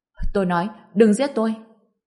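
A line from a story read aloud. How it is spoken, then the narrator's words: Terrified loud shout. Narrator (Vietnamese): Người kia cảm thấy đồng mình sắp bị giẫm bẹp nên hét lớn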